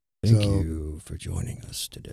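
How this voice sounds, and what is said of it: Put-on deep voice. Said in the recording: “guy with a deep voice ... Should I start talking like this on the podcast?”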